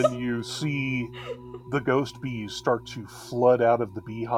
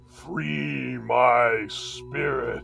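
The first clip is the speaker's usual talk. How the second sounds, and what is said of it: Deep ghostly voice. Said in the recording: “deep voice”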